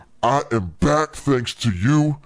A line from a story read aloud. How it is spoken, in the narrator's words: the dummy growled